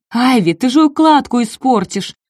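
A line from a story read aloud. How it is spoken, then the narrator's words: Loud yell. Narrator (Russian): завопила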